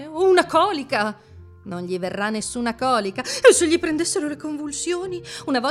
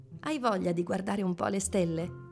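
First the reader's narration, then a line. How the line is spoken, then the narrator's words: Gentle question. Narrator (Italian): chiese dolcemente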